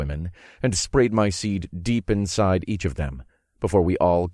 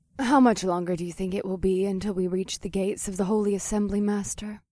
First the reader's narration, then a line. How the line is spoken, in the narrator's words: Vesta asked in a gentle voice